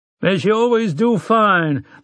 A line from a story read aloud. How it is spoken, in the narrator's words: the rancher cried